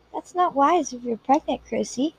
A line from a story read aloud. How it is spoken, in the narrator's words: she said gently